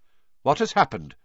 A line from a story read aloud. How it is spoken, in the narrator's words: said Dumbledore sharply